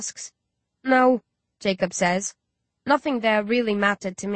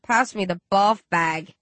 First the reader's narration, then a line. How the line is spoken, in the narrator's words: Rage groans